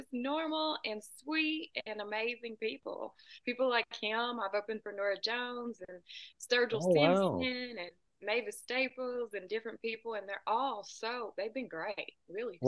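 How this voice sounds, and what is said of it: Southern US accent. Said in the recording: “that accent sounds like Nashville... A little more south than that. I'm about 2 hours south of Nashville... Sometimes when people hear my accent, they say Texas.”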